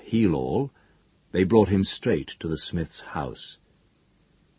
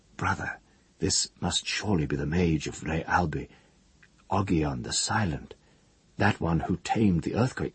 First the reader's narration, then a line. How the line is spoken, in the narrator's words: The witch whispered to the smith